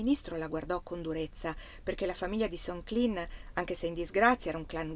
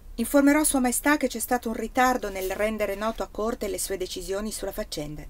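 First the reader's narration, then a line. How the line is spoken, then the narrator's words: Plain. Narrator (Italian): disse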